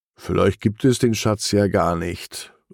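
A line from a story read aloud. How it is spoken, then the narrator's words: Sighing. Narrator (German): seufzt er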